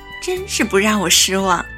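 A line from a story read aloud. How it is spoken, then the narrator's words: Laughing. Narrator (Chinese): 红姑笑道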